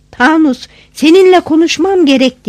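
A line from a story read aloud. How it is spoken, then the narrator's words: Shouted. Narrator (Turkish): diye bağırdım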